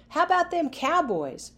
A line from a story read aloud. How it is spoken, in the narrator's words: Players yelled